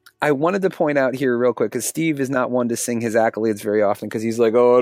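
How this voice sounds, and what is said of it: Usual voice. Nothing is said of it.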